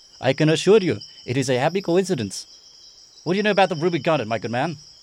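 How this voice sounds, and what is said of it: Put-on Indian accent. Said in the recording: “But you have an Indian accent.”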